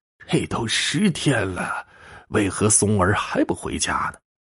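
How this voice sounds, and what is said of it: Old man's voice. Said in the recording (Chinese): “一老者的声音说”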